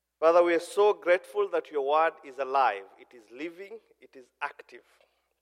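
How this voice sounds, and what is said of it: Kenyan Somali accent in English. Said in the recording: “I'm a Kenyan. I'm a Somali. ... I speak English, but it's foreign to your ears. ... I'm told I have an accent ... despite my accent”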